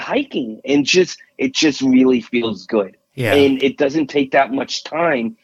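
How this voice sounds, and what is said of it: New York accent. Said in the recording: “my New York accent, people don't understand what I'm saying”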